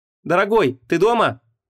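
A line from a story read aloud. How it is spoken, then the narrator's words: Called out. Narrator (Russian): крикнула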